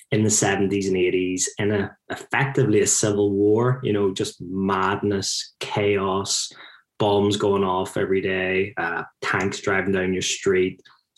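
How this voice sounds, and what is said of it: Northern Irish Belfast accent. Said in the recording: “my accent, that's me growing up in Belfast”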